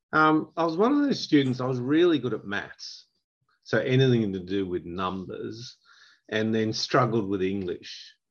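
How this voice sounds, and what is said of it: Australian accent. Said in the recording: “I've got a very Australian accent”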